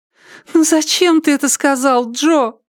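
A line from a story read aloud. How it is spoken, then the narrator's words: Moan. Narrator (Russian): простонала Триша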